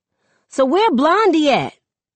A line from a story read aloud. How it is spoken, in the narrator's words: Chris snorts